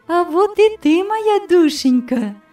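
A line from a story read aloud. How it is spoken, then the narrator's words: Affectionate. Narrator (Russian): сказала ласково тетя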